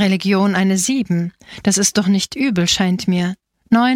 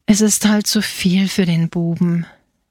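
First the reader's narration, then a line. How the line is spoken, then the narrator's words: Mother's sigh. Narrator (German): seufzte die Mutter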